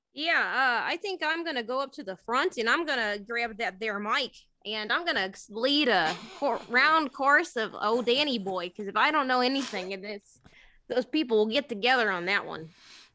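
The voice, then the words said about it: Put-on Minnesota accent. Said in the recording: “You made no mention of the Minnesota accent.”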